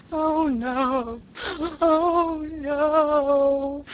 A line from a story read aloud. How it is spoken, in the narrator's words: wailed Sarah Ray lugubriously